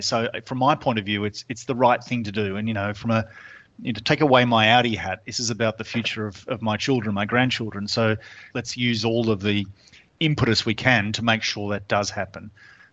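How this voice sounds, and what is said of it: Australian accent. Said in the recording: “you can tell from my funny accent, I'm from Australia”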